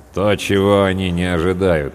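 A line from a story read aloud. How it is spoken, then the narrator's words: Gloomy. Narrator (Russian): мрачно произнес третий сержант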